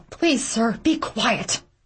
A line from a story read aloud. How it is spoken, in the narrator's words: a clearly terrified woman blurts out